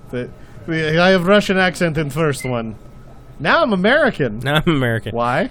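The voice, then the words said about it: Mock Russian accent, Scarlet Witch impression. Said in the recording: “the search for her Russian accent ... Olsen through Scarlet Witch now”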